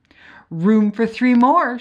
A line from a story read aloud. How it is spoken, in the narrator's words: cried